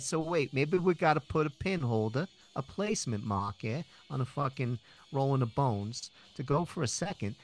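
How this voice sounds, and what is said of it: Thick regional accent. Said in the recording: “my accent has come back much thicker”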